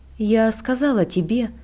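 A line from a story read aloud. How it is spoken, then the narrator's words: Completely calm. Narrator (Russian): проговорила она совершенно спокойно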